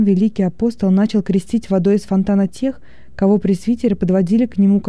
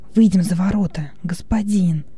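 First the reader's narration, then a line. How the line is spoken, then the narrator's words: Whispered. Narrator (Russian): шепнул Хилон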